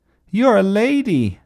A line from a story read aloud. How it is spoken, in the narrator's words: cried Ernest